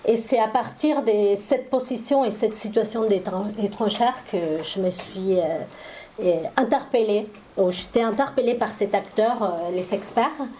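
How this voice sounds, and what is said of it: Foreign accent in French. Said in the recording (French): “vous entendez mon accent, je suis étrangère”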